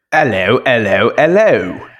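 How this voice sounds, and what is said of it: Put-on British Butcher-style accent. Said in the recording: “are you guys doing butcher accents? ... that was a butcher accent. ... You were like, hello, hello, hello, mate.”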